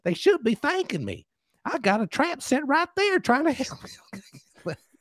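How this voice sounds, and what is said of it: Put-on accent while quoting someone. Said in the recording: “I love my accent. I'm so excited about it right now.”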